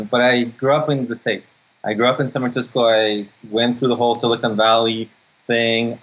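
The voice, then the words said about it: Ukrainian-accented English. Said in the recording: “I was born in Odessa, Ukraine, because everybody always asks me where you're from because they hear the accent.”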